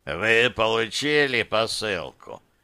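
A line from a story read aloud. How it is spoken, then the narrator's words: Hoarse question. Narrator (Russian): спросил хриплый голос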